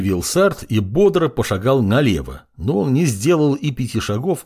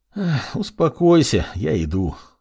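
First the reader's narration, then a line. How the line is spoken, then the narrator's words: Unenthusiastic sigh. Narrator (Russian): вздохнул молодой артефактор и без особого энтузиазма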